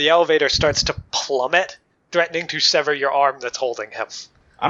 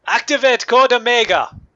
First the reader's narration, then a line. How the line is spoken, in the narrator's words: he yells out